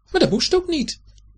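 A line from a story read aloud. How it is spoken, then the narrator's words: Calling back. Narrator (Dutch): riep Dibbes op zijn beurt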